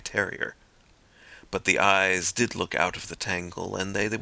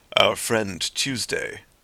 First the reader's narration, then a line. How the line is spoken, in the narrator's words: said the president, in a deep voice, at once of quietude and volume